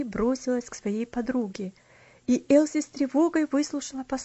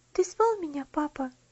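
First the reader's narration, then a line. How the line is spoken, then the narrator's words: Timid question. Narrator (Russian): робко спросила она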